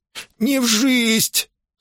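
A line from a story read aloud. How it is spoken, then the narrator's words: Eager wheeze. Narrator (Russian): с готовностью просипел тот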